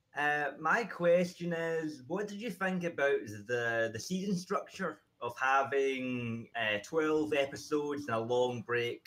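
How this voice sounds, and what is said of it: Scottish accent. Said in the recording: “I'm from Scotland ... Hey, shout out to the Scottish ... I love your accents”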